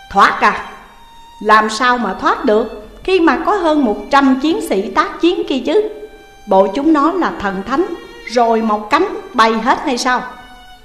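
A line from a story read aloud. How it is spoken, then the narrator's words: Laughing then sudden shout. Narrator (Vietnamese): Ông này cười lớn, rồi bất thình lình quát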